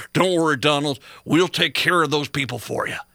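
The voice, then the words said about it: Dumb-guy Southern accent impression. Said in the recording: “your dumb guy Southern accent impression”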